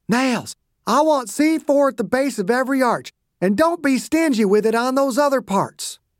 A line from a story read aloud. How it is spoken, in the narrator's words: Dew kept shouting